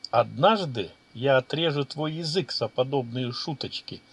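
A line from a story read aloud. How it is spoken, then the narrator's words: Calm. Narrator (Russian): спокойно ответил маг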